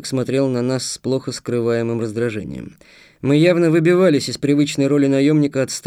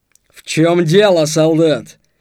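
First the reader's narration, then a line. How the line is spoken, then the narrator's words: Sharp shout. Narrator (Russian): прикрикнул сержант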